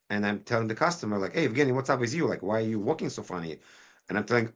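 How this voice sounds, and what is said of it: Noticeable non-native English accent. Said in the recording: “The accent can be challenging ... I took accent reduction courses.”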